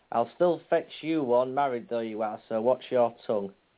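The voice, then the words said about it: Put-on Yorkshire accent. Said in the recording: “if I'm going to speak proper Yorkshire over here ... if I was going to speak proper Yorkshire”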